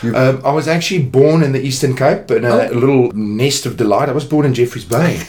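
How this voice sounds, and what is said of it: Afrikaans South African accent. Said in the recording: “please excuse the Afrikaans accents. But apparently some of you find it sexy ... a very, you know, sexy accent”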